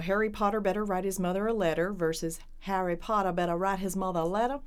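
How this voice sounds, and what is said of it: Contrasting Southern American accents. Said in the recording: “which Southern accent is which”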